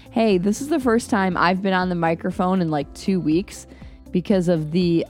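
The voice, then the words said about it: Hoarse voice from laryngitis. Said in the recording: “I've had this crazy cough and laryngitis ... I'm owning my sexy voice”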